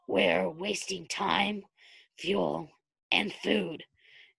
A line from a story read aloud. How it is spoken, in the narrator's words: Derek muttered bitterly